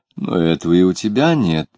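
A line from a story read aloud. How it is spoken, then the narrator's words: Very gently. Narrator (Russian): очень мягко сказала она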